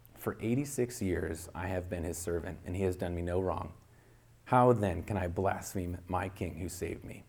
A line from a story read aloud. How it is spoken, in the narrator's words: answered in a clear voice